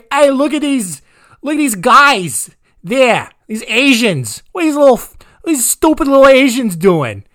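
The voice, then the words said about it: Bad put-on Boston accent. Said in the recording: “I like to do a bad Boston accent”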